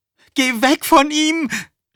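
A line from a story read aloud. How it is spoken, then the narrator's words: Screaming. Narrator (German): schrie Kathy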